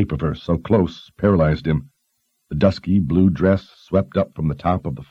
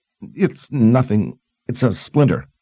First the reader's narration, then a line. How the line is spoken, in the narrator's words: stammered